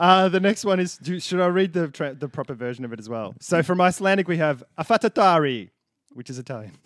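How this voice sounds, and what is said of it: Usual voice. Nothing is said of it.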